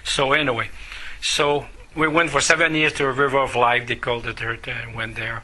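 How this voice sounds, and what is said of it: Non-native English accent. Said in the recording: “I have the accent ... the accent was there”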